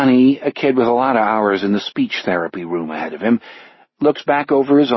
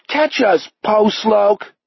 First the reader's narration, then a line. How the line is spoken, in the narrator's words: Ronnie Metzger yells